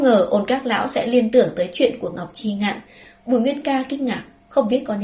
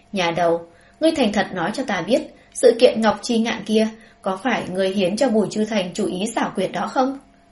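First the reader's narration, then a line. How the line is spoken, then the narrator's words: Hesitant. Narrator (Vietnamese): Ôn Các lão ngửa đầu cười lớn, bỗng nhiên trong đầu hiện ra ý nghĩ, chần chừ nói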